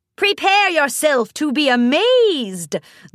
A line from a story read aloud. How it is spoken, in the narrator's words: the voice cackled